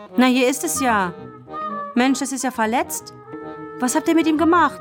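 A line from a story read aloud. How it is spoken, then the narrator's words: Sudden call. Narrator (German): rief plötzlich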